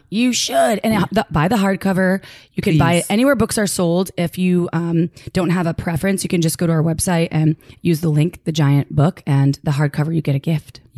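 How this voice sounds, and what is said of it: Low, sultry, losing voice. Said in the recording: “I love your sultry voice ... it's called I'm Losing My Voice”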